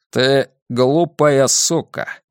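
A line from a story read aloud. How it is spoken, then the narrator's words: Calm, casual. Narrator (Russian): произнес Картер спокойно, будто говорил о погоде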